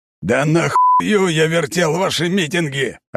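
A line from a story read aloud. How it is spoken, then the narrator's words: Furious shouting into microphone. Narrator (Russian): орал капитан в микрофон на русском, багровый от ярости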